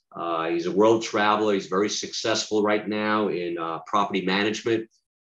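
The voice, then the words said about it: Polished radio announcer voice. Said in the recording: “You always had that radio voice.”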